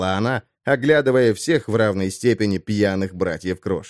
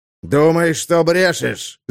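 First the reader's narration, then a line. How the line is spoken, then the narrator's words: Growl. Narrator (Russian): зарычал он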